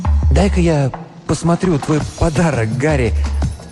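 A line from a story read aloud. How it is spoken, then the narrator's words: Forced light carefree tone. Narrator (Russian): сказать это легким, беззаботным тоном, чтобы мальчик не испугался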